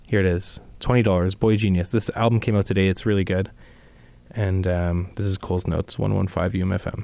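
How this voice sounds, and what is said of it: Out of breath, breathy speech. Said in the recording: “Wow, just need to take a deep. Apparently, I'm uh, out of breath from sitting here.”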